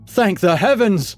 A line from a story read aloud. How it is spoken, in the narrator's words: he shouted